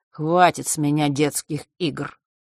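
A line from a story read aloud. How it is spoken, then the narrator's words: Cold, smug. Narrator (Russian): холодно произнес он, все с той же ноткой самодовольства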